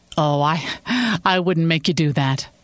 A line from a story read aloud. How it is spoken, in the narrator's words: Sophie laughed